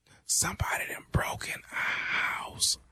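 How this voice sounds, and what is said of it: Quiet whispering. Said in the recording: “speak up. I can't hear you... why in the hell are you whispering?”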